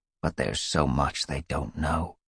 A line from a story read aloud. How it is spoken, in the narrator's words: Yellowfang added quietly